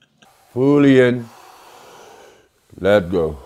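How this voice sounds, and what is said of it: Imitates another person's voice. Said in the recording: “That's my Wim Hof impression”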